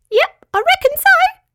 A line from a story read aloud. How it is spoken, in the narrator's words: squeaked Petruchio